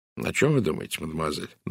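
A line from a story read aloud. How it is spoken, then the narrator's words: Very soft question. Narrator (Russian): спросил он очень мягко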